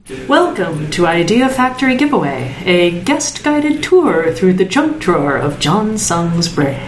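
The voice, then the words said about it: Announcer-style radio voice. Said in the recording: “doing the radio voice ... The radio voice is great”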